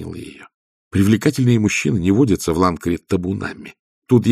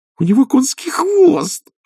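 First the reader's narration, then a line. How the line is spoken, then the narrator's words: Delighted squeal. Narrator (Russian): восторженно визжала Пердита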